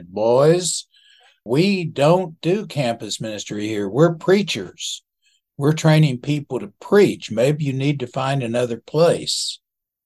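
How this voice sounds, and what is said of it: Imitated southern Texas accent. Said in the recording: “in his nice southern Texas accent”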